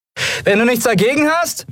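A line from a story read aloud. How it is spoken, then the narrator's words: Called out, spitting dust. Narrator (German): rief Endriel und spuckte Staub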